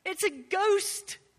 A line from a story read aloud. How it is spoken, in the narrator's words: they cried